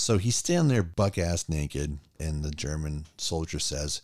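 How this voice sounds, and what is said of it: Usual voice. Nothing is said of it.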